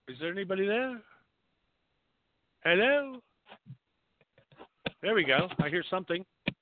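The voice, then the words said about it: Put-on English accent. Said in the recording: “I have an English accent when I want to talk on the phone”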